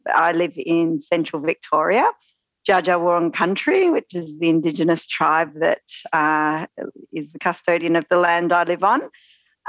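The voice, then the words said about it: Australian accent. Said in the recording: “you might be able to tell from my accent, I am Australian”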